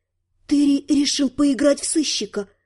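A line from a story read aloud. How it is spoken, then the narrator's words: Muttering. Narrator (Russian): пробормотала я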